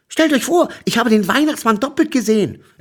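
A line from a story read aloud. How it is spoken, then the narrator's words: Excited telling. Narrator (German): erzählte ich ihnen gleich aufgeregt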